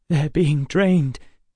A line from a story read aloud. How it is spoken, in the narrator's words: Emma said, her voice shaking